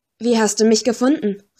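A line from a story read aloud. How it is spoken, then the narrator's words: Exclaimed. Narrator (German): rief aus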